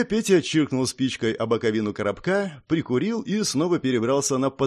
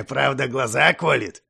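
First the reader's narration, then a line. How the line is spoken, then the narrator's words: Chuckling. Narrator (Russian): хохотнул дядя Петя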